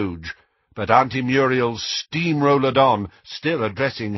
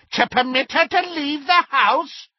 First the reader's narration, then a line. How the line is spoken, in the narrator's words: cackled Muriel